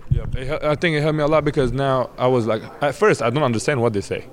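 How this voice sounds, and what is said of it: Deep voice, aggressive-sounding Arabic accent. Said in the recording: “I have a kind of accent. My accent is kind of aggressive. Like I have a deep voice because of Arabic.”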